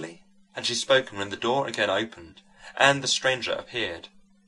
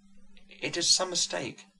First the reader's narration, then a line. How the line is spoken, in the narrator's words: murmured madame